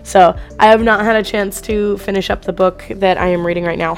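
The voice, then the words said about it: Nearly lost, weak voice. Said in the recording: “my voice is practically gone. I've been sick for the last week.”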